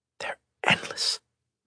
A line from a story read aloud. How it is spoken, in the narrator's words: Meta whispered